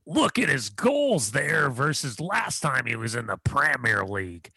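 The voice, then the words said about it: Imitates another person's voice. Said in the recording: “that was my Tom Rennie impression.”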